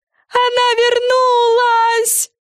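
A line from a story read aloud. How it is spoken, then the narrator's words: Loud yell. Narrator (Russian): завопила Френ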